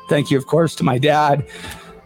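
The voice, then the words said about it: Emotional, choked-up voice. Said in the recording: “Can't even say that word without getting emotional.”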